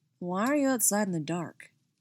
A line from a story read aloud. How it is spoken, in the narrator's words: he asked